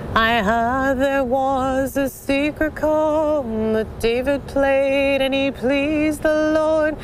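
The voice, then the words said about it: Hoarse singing voice. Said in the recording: “I'm a little hoarse from speaking all day”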